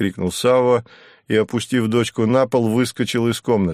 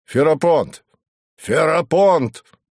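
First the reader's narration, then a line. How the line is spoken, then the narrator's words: Shouting. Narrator (Russian): крикнул он камергеру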